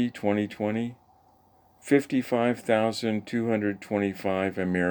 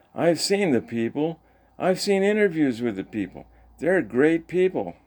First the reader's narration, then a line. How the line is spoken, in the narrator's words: Trump exclaims